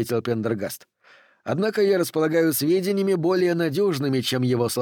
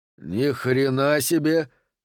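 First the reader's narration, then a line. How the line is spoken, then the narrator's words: Breathless exclamation. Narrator (Russian): выдохнул он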